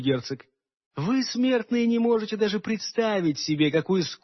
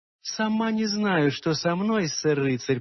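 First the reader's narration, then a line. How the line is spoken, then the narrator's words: Cooing. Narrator (Russian): проворковала она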